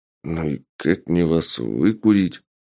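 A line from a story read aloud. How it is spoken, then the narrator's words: Zombie man muttering. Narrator (Russian): бормотал зомби-мужчина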